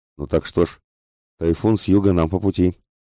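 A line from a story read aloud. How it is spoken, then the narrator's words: Plain. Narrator (Russian): ответил мистер Фок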